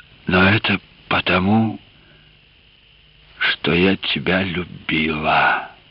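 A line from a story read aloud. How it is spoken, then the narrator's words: Barely audible. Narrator (Russian): Она продолжала чуть слышно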